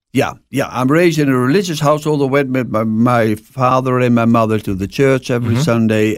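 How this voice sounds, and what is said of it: Dutch accent in English. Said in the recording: “that accent ... I'm born in Holland, the Netherlands”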